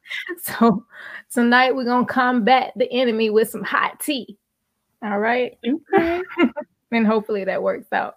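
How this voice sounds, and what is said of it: Strained, fading voice. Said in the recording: “my voice is going too. So I have my tea here”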